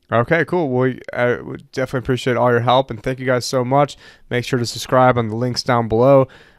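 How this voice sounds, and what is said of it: Worn-out, strained voice. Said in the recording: “My voice has been absolutely shot from all the allergies over here.”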